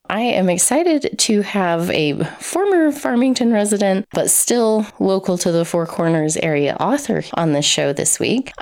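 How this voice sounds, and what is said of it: Froggy, hoarse sick-sounding voice. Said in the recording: “I'm getting over some sickness, so my voice may sound a little bit froggier than usual”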